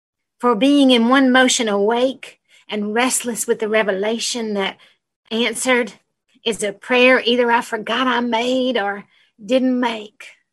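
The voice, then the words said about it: Speaks with an appealing accent. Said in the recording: “That accent is just gorgeous. ... It's like being in the cinema. It's like, ooh, lovely.”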